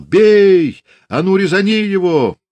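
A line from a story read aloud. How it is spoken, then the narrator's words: Fierce yelling. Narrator (Russian): люто орал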